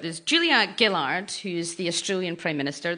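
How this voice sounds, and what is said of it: Put-on Australian accent. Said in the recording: “Is that your Australian accent that you're doing for us there? ... Yep.”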